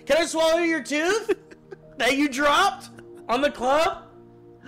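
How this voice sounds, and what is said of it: Speaking louder, near shouting. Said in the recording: “It's kind of loud in here ... say it louder”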